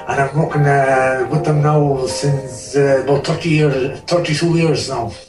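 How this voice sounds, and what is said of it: Strong Irish accent. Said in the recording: “have a listen to his accent. It's incredible. You would swear he was from Ballymore. ... I can hear it in your voice and your accent.”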